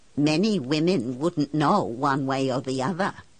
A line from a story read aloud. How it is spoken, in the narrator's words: he says